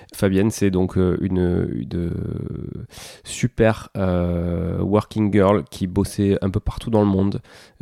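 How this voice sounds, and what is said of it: Southern French accent. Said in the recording (French): “désolé pour mon accent du sud”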